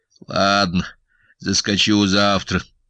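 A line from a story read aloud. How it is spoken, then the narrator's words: Grumble. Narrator (Russian): проворчал Сашка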